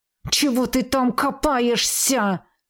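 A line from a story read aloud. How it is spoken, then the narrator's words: Growling while fighting. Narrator (Russian): Рычала квазара, отбиваясь сразу от двух герангов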